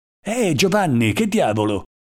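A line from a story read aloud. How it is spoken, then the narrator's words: Exclamation. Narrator (Italian): esclamò egli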